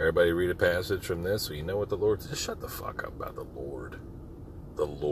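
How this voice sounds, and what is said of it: Usual voice. Nothing is said of it.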